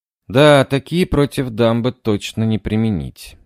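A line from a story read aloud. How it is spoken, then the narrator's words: Sigh. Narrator (Russian): вздохнул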